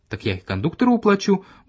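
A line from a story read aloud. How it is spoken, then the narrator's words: Cheerful objection. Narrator (Russian): бодро возразил я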